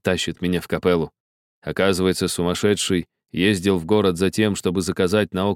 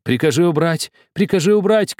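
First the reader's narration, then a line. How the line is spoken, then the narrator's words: Shouting. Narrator (Russian): кричала Рита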